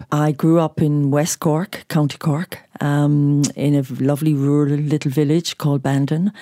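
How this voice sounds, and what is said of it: Irish accent. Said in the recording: “your beautiful accent ... you are from Ireland”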